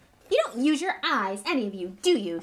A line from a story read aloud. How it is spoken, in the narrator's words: she snapped